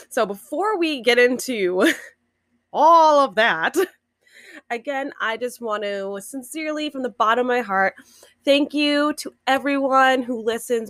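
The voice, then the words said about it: Worn party girl voice. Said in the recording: “I apologize in advance for my party girl voice”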